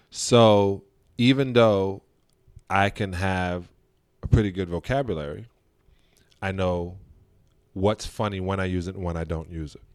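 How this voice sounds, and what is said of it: African American English twang. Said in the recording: “A twang in my voice that when I spoke, you knew I was black.”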